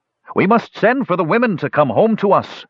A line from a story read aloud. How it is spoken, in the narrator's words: shouted Canfo